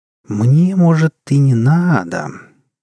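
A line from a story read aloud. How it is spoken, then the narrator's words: Mysterious drawl. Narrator (Russian): загадочно протянула вошедшая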